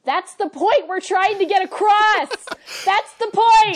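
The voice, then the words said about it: Yelling, raised angry voice. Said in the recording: “I'm yelling. ... you're yelling”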